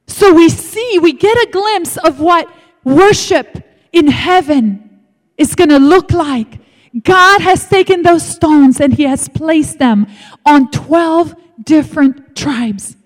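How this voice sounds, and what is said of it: Speaks with a foreign accent. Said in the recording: “I do have an accent, and I can't help it... Because I'm from a different country”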